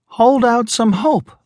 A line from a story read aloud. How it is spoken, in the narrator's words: Laura Shawn begged him